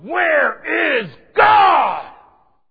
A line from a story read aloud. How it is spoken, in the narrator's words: the clergyman stood up, shook his finger at the boy, and bellowed